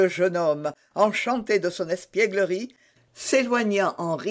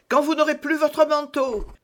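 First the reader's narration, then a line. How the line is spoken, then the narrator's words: Shouted. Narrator (French): cria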